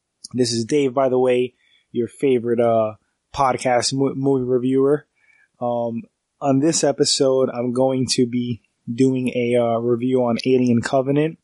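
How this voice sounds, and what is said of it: Congested, stuffy voice. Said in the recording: “excuse my cold if I sound a little congested, a little stuffy. I'm getting over a cold. I also have allergies.”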